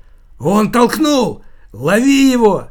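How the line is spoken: Crowd shouting. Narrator (Russian): закричали пассажиры на платформе

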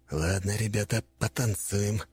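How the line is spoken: Muttering under breath. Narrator (Russian): буркнул он себе под нос

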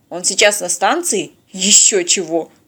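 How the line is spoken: Dismissive snort. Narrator (Russian): фыркнул диспетчер

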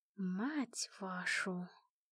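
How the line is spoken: Whispered. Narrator (Russian): прошептала

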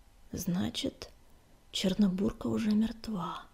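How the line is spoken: Whispering. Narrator (Russian): прошептала синяя звезда

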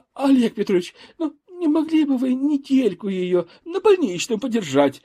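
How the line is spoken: Pleading. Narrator (Russian): взмолилась Большова

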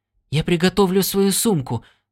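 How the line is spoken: Hurried. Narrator (Russian): торопливо сказал Стинни

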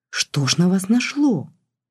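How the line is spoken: Gentle reproach. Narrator (Russian): мягко укорил

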